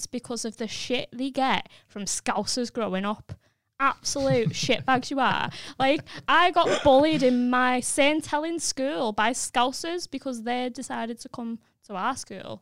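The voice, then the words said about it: St Helens northern English accent. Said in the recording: “You've been getting a lot of love for your accent ... most people in St. Helens will grow up hating their accents ... I like your accent”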